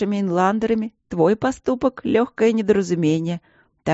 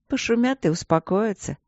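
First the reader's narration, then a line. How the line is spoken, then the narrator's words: Soft soothing mother. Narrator (Russian): мягко успокоила его мать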